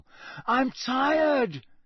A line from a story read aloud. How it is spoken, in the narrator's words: he bellowed finally